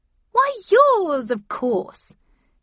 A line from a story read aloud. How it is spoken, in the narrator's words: She answered happily